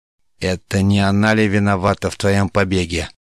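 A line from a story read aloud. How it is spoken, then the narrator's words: Hiss through teeth. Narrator (Russian): прошипел он сквозь зубы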